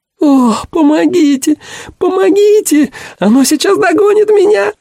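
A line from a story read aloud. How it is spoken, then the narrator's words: Girl shrieking. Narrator (Russian): визжал девичий голос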